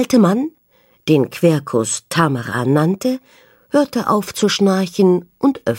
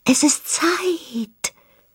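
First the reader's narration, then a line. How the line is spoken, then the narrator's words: Rustling leaves whispering. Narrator (German): wisperten die Blätter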